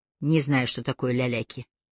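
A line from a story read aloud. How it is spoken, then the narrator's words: Dry. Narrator (Russian): сухо сказал Аллейн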